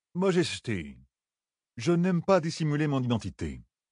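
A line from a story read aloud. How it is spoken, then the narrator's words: Lord's stiff, pinched tone. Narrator (French): dit le seigneur d'un ton pincé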